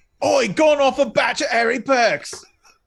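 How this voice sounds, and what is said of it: Put-on Cockney accent. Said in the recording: “in Cockney slang ... to do accents.”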